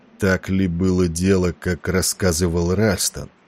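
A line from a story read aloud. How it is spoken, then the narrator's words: Hoarse, anxious. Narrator (Russian): Несмотря на усилия Валери казаться спокойным, голос его прозвучал хрипло, почти тревожно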